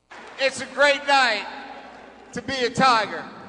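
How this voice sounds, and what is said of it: Fake put-on Southern accent. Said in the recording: “he was being fake, very fake and phony already ... All of a sudden, you just developed a Southern accent.”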